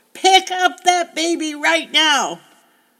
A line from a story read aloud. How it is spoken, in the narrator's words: actually shouted